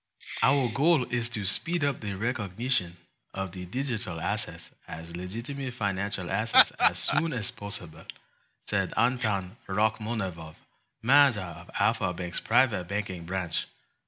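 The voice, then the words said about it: Put-on Wakandan accent, Russian-sounding. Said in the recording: “I'll read this in Wakandan so you can tell the difference ... See, that's Wakandan, not Russian ... I would argue that your previous accent is now more Russian sounding than Wakandan sounding”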